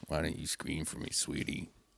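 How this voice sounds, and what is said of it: Creepy menacing voice. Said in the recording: “Is that creepy voice? I'm working on it. ... That's good. It's really creepy.”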